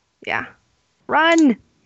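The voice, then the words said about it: Shouting. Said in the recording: “I'm shouting”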